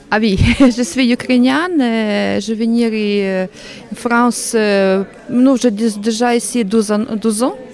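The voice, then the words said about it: Slight foreign accent in French. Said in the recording (French): “Je ressens un petit accent.”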